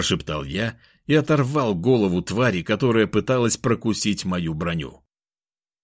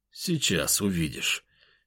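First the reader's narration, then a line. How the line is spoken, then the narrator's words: Quiet. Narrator (Russian): тихо проговорил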